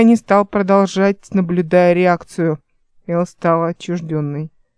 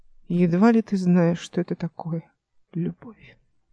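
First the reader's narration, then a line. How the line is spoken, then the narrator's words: Quiet. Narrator (Russian): произнесла она тихо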